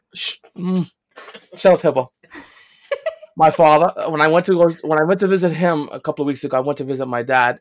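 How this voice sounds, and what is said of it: New York accent. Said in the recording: “You have an accent ... People love the New York accent.”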